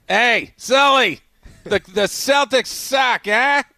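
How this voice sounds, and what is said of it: Put-on Boston accent. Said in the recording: “that Boston accent ... This is a new voice”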